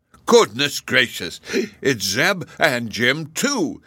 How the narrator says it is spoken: he exclaimed

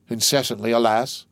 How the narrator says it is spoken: cried the abbe

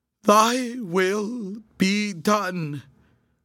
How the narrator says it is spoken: cried in a cracking voice

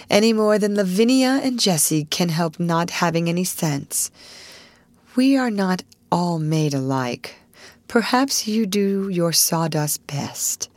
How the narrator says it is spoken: she said with a resigned sigh

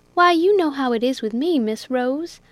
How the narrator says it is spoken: answered Jack

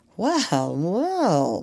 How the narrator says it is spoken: murmured the doctor

